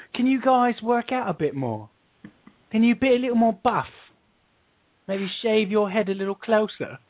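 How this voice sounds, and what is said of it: Mixed put-on British accents. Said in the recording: “do you like the way I mixed four different British accents? ... Yes, it's different dialects. ... Terrible.”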